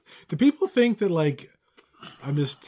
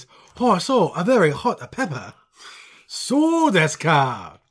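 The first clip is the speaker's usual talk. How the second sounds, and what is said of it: Put-on Japanese accent. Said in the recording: “With all my accents? Most of which are bad? ... I can do Japanese.”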